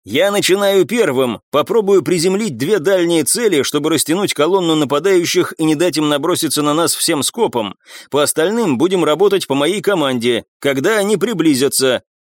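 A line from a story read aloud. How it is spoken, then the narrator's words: Shouted. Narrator (Russian): Федор Федорович прокричал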